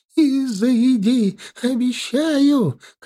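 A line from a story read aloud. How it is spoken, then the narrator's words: Old woman shouting. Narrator (Russian): крикнула бабка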